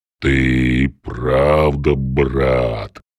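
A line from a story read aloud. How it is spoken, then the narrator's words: Deep bass voice. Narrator (Russian): пробасила распрямившаяся туша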